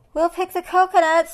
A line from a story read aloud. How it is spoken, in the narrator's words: shouted the monkeys